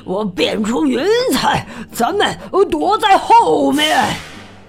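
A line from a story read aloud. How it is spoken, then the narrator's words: Breathless, panting. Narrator (Chinese): 巫师气喘吁吁地说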